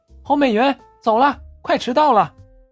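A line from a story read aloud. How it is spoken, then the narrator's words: Girl calling out. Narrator (Chinese): 一个女孩喊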